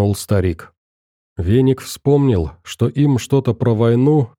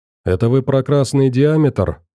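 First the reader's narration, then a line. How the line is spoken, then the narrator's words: Plain. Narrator (Russian): спросил Фил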